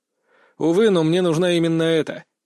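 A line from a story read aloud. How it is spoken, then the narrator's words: Sigh. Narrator (Russian): вздохнул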